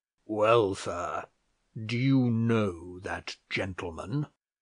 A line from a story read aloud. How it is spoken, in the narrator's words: said in his harshest voice